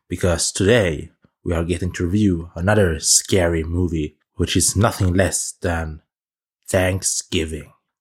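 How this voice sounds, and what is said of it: Spooky, theatrical scary voice. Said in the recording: “Do you like my scary voice there? Is it good? I think it's pretty good.”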